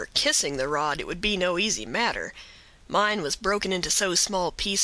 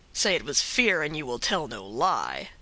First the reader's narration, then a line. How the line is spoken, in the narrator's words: said his comrade with a sneer